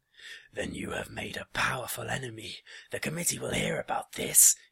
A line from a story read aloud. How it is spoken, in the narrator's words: roared